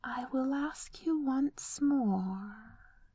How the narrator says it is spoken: he breathed

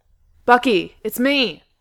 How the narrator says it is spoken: Steve yelled from out in the hallway

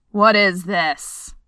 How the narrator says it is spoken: thundered Dwalin from the doorway

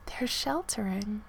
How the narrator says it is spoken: Lee whispered

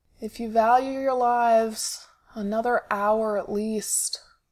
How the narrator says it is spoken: Sid calls, his voice rough with sleep

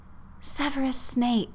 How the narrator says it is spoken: Hermione said with a sigh

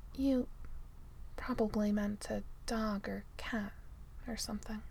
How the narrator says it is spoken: Tony says softly

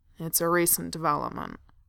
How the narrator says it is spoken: Thorin growled

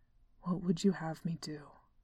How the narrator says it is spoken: He asked, his voice low and rough

